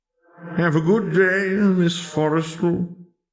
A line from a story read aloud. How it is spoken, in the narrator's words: he wheezed in a well-meaning tone